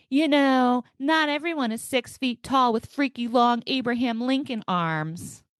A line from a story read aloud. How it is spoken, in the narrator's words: through my car's Bluetooth and speakers, I immediately hear her yelling